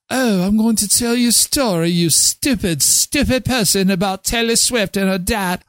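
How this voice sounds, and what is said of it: Put-on posh fancy accent. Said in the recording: “Can you turn the accent off? ... we're going to talk like we're fancy pantsy.”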